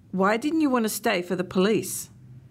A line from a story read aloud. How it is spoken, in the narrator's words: He sighed